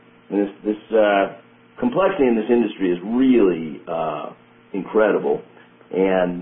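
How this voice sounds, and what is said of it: Usual voice. Nothing is said of it.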